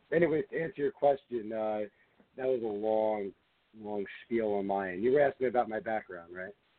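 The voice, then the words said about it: Strained, worn-out hoarse voice. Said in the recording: “My voice is kind of gone right now, so if I'm if it sounds like I'm straining to talk, it's because I am straining to talk ... that requires a ton of screaming ... my voice is a little beat up”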